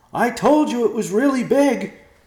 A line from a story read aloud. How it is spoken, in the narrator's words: Ben shouted back